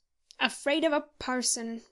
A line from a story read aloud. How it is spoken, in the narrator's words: growled Moody, with a look of ineffable scorn